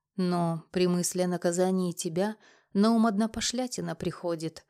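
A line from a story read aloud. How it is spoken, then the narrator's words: Mock-sad sigh. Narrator (Russian): вздохнул он с притворной печалью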